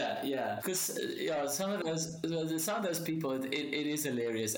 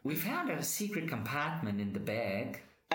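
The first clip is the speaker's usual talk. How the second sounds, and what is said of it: Poor put-on Australian accent. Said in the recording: “my Australian accent's so bad. I'm not even going to try and do it ... I think it was more New Zealand”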